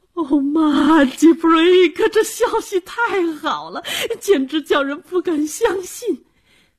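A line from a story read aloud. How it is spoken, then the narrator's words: Gasping, tearful excitement. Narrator (Chinese): 大阿妈大声喘了口气，激动地哭着说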